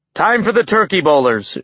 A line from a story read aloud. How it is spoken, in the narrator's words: Utgard Loki shouted